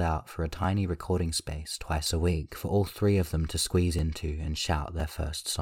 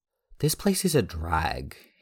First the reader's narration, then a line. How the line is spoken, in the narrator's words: exclaimed